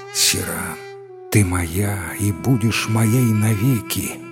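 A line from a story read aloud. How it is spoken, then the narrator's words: Whispered in ear. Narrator (Russian): шептал на ушко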